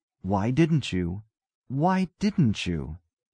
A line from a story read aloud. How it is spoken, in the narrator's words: insisted Abercrombie in an aggrieved tone